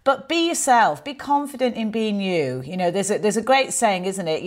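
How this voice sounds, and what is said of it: Mancunian northern English accent. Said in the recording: “I have a Mancunian accent, as you can tell ... I sound so northern”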